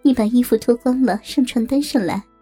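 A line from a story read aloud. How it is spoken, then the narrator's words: Sweetly smiling woman. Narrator (Chinese): 杨雪嫣然一笑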